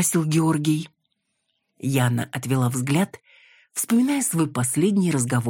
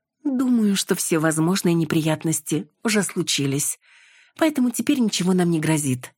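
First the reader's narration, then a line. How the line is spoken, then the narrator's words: Plain. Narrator (Russian): ответила Яна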